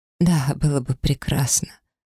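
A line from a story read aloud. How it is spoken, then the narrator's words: Weak voice. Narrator (Russian): слабым голосом отозвалась я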